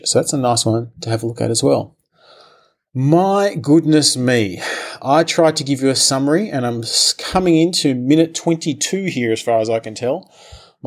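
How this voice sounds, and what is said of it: Worn-out, strained voice. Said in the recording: “My voice is gone.”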